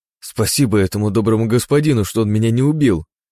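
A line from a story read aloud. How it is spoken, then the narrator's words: Exclaiming. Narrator (Russian): воскликнул Егор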